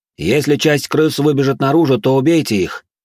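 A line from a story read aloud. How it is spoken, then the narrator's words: Shout. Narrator (Russian): крикнул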